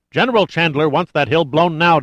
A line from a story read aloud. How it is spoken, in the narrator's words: demanded the colonel, his voice rising